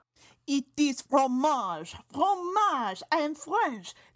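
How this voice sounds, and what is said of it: Exaggerated French accent. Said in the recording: “Listen to my outrageous accent.”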